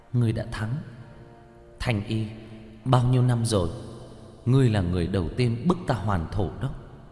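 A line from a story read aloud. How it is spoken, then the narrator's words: Sighing. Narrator (Vietnamese): thở dài nói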